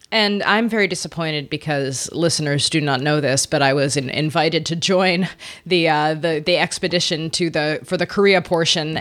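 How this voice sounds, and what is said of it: Congested, slightly off voice. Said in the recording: “my voice is a little off. I am suffering from a pretty bad head cold, chest cold.”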